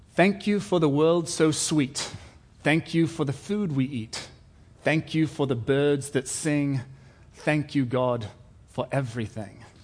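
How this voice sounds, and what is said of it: Put-on British English accent. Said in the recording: “I was actually born in England ... we're all British ... pardon the accent”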